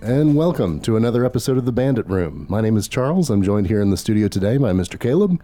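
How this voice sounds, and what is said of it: Lower, sick-sounding voice. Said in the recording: “you sound so different ... bringing my voice down another octave ... are you got a cold? ... still not sounding 100%”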